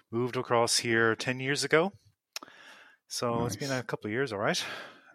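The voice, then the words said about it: Irish accent. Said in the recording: “for those that heard the Irish accent ... I haven't lost my accent.”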